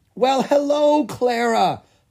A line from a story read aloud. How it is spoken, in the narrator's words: the young troll exclaimed